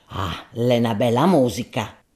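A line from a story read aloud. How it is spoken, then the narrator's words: Muttered. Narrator (Italian): borbottò Gaudenzio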